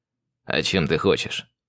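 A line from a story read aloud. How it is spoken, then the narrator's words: Amused snort. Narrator (Russian): хмыкнул он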